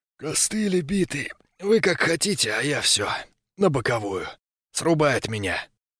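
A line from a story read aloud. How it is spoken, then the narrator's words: Sleepy whispered mumble. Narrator (Russian): Сонным шепотом он пробурчал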